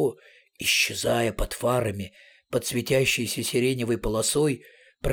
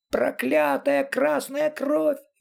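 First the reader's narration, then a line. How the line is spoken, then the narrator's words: High shrill shriek. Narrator (Russian): визжал кто-то высоким резким голосом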